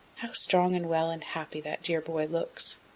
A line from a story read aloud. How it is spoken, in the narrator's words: said softly, as if to herself